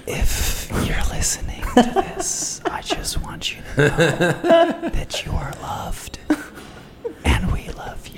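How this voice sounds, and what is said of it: Soft whispery ASMR voice. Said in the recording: “ASMR voice ... People are going to be creeped out”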